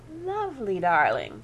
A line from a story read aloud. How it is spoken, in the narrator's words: cooed Aunt Celia